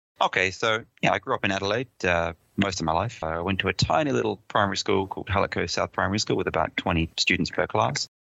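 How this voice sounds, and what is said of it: Slight English accent on Australian speaker. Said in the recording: “I did detect a bit of a Pommy accent”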